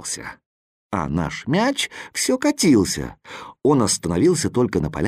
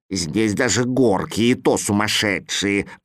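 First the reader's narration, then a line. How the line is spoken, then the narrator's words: Grumbling. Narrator (Russian): ворчал Кузя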